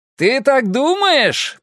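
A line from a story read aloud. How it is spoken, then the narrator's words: Shouted reply. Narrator (Russian): прокричал он в ответ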